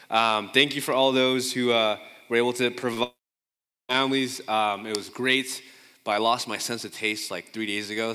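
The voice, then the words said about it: Congested, stuffy-nosed voice. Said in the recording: “I sound congested, I'm getting over COVID”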